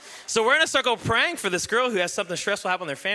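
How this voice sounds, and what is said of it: Usual voice. Nothing is said of it.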